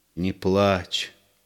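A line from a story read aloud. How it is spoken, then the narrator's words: Quiet plea. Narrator (Russian): тихо попросил Егор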